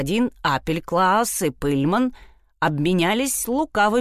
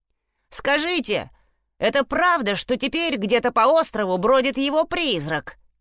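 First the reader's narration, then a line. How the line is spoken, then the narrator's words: Shouted. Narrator (Russian): крикнул Фред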